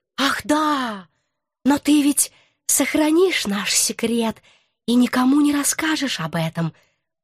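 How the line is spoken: Sly sing-song. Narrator (Russian): Ласково, как хорек, пропел он

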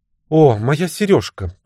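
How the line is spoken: Exclaiming. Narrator (Russian): воскликнула она

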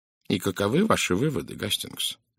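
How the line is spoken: Quiet question. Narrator (Russian): негромко спросил Пуаро

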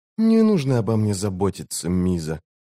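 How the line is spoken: Quiet. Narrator (Russian): негромко сказала она

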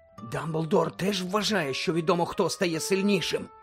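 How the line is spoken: Whisper. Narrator (Ukrainian): прошепотів Рон

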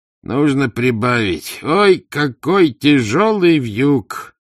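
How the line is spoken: Groaning idler. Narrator (Russian): простонал бездельник

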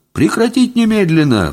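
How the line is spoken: Howled. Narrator (Russian): взвыл я

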